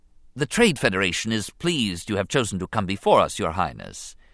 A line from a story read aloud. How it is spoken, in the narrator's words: he began smoothly